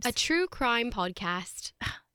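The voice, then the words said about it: Put-on British accent. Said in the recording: “You could say it in your really well-perfected British accent. ... am I saying it in the accent the whole time? ... Was that a British hi?”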